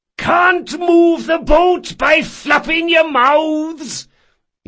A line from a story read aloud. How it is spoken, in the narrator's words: yelled Caldris